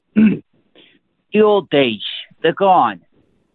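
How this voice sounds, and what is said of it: Tony Soprano impression. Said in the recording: “did a Tony Soprano impression ... The Soprano impression”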